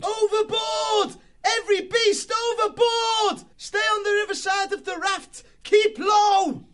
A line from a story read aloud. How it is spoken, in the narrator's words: he yelled